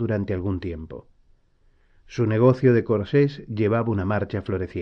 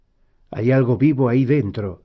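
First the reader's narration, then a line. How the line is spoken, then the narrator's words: Plain. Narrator (Spanish): dijo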